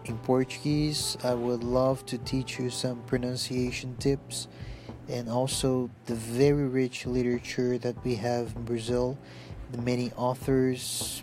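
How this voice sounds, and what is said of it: Non-native English accent. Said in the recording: “I'm sure that you've noticed my accent. I'm not native English native speaker”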